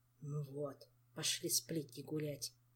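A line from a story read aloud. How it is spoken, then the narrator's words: Displeased grumble. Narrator (Russian): Недовольно проворчал Жак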